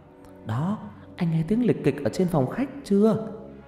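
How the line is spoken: Wife's whisper. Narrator (Vietnamese): bị vợ lay dậy thì thầm

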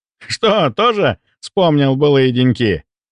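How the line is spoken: Loud booming laughter. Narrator (Russian): По обыкновению громко расхохотался Антон

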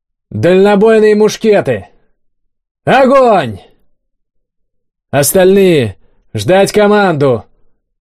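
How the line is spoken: Shouted command. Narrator (Russian): выкрикнул кабан

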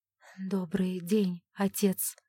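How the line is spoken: Timid greeting. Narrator (Russian): робко поздоровалась Александра

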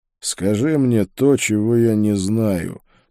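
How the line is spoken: Grumble. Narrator (Russian): проворчал я

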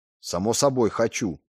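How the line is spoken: Muttering. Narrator (Russian): буркнул я

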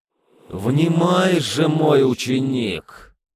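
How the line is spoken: Loud didactic voice. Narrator (Russian): Голос наставника зазвучал особо громко и назидательно

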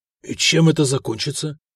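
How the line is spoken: Forced-out words. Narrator (Russian): выдавил Гарибальд

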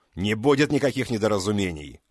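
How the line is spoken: Barked. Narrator (Russian): рявкнул я

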